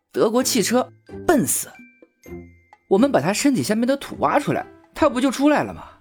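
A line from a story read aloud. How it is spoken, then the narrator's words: With a smile. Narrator (Chinese): 笑了笑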